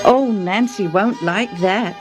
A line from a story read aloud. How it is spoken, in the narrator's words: her neighbor said